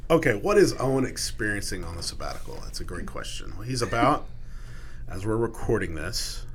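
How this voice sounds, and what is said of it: Congested, deep sinus-affected voice. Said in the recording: “I've got my radio voice today. I got a little sinus thing going on”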